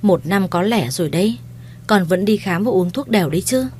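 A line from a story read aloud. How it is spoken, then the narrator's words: Sighing mother-in-law. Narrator (Vietnamese): Mẹ chồng tôi thở dài và nói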